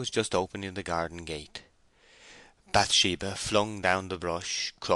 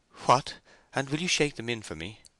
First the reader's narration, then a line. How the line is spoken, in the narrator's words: she asked, in what for a defiant girl was a faltering way, though for a timid girl it would have seemed a brave way enough